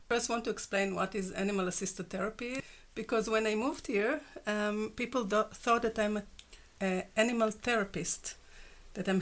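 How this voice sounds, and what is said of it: Israeli accent. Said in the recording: “obviously you're from Israel ... it's obvious ... My accent.”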